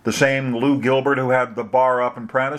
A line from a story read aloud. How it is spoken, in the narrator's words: she asked